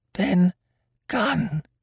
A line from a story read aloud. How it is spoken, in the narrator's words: he answered, and his voice sounded hoarse and awkward, like a rusty lock